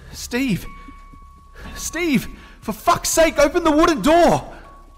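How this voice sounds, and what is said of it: Panicked, increasingly loud shouting. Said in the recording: “My voice was beginning to get louder.”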